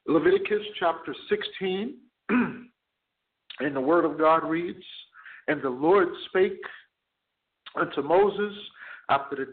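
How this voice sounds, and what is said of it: Strained, hoarse voice. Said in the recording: “losing my voice a little bit”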